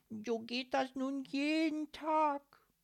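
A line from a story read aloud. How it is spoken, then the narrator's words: Sad wailing. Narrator (German): jammerte Sunny traurig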